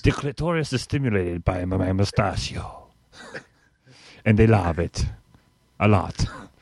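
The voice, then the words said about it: Put-on foreign accent, not Italian. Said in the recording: “I am going to use this accent through the whole segment and have people get very irritated. ... And it is not Italian. ... No. For once, it's not Italian.”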